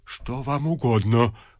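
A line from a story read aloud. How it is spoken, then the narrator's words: Whisper. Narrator (Russian): прошептал отец Федор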